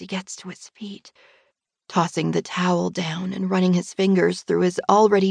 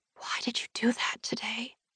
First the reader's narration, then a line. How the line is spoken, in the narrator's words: whisper, my voice faltering